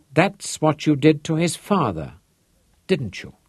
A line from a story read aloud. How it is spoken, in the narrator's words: He asked softly